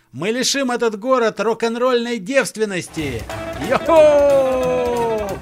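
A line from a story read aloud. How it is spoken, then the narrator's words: Group yelling. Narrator (Russian): Заорали остальные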